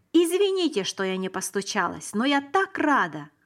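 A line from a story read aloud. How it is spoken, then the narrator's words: Exclaiming. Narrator (Russian): воскликнула она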